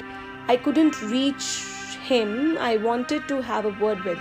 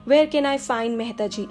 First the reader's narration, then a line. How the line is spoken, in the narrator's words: I asked